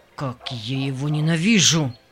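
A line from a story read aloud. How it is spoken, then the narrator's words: Hiss through clenched teeth. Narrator (Russian): прошипел Джек сквозь стиснутые зубы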